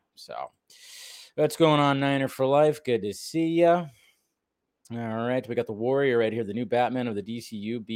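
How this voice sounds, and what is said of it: Slightly raw, hoarse voice. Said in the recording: “my voice is a little, raw ... the throat has been a little raw today ... A little raw today”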